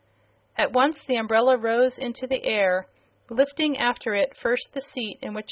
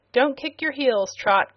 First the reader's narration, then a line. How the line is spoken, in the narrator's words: cried the sailor, in a voice that proved he was excited by his novel experience